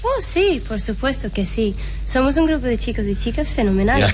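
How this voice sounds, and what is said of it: Small high-pitched girl character voice. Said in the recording (Spanish): “¡Es que vocecita! ... Qué vocecilla ... tu acento venía perfecto para esa escena”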